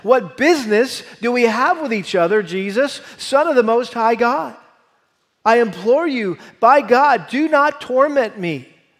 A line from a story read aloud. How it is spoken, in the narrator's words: shouting with a loud voice, he said